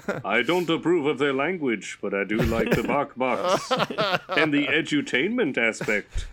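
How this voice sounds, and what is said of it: Performed voice of God. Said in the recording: “Is that your God impression?”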